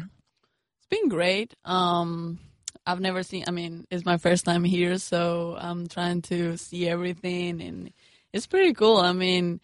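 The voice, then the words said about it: Spanish accent. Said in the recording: “you hear the accent. is from Spain”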